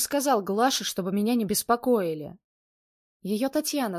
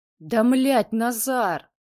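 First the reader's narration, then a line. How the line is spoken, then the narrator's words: Growled. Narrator (Russian): прорычал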